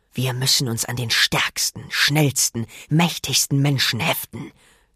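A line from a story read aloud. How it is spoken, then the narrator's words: Hissed. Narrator (German): zischte er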